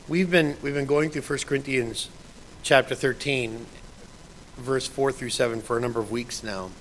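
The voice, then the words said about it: Rough, strained voice. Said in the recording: “My voice is a little messed up this morning ... My throat decided not to want to participate this morning.”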